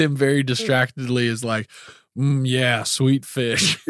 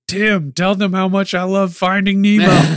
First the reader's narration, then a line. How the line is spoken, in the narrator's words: She yells out after Tim